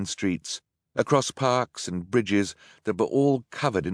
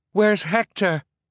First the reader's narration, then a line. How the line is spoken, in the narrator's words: Isadora asked frantically